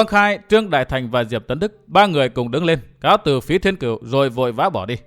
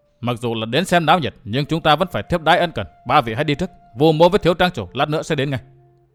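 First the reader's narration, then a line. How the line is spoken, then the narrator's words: Stern. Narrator (Vietnamese): Vũ Á Vinh nghiêm giọng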